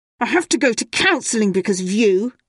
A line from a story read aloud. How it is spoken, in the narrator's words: she snapped